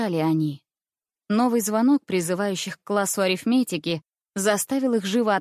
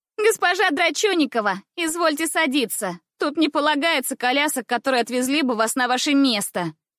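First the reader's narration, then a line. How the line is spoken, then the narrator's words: Shouting. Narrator (Russian): кричала она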